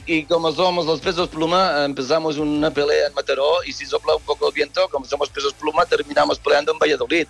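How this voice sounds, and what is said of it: Put-on Russian accent. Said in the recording (Catalan): “com un accent rus o català, no? Rus. ... Però per què tens aquest accent rus quan ets espanyol?”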